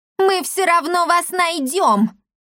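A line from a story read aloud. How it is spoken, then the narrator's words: Shrill scream. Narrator (Russian): завизжала Лавдотья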